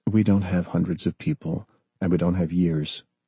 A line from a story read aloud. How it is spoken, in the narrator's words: John replied softly